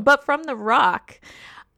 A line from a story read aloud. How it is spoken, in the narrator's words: I laughed harder than I have laughed in such a long time